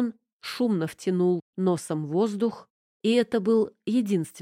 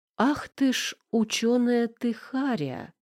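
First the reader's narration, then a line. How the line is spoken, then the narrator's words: Slow hiss. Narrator (Russian): медленно прошипела Тамара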